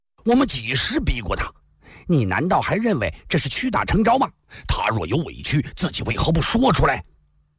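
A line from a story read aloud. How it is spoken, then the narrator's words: Several voices overlapping. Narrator (Chinese): 几个人抢着说话，说的话反而听不清了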